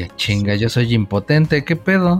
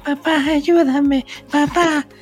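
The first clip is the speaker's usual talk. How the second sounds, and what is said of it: Imitated little girl's voice. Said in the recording (Spanish): “todavía la voz de niña”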